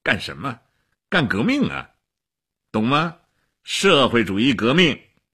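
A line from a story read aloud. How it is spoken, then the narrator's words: Laughing. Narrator (Chinese): 齐比索夫笑起来了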